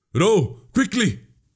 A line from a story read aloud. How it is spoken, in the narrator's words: the prince gasped